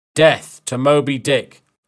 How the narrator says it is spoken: Ahab shouted

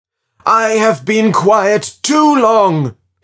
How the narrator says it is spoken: shouted

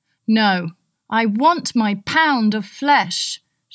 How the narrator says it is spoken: Shylock cried

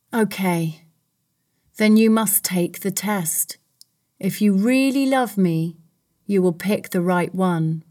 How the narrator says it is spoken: sighed

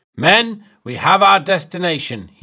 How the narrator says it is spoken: he shouted

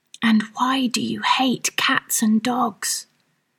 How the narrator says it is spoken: added in a whisper

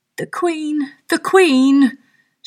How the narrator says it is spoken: shouted Five

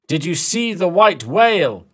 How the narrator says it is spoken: Captain Ahab shouted

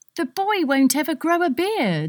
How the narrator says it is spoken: Nerissa cried

